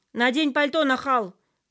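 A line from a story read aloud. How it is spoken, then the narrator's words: Father shouting after. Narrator (Russian): крикнул нам вдогонку Сережин папа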